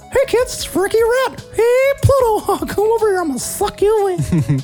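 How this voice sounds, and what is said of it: Cartoon mouse character voice. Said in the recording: “do the voice. ... Do the Mickey voice.”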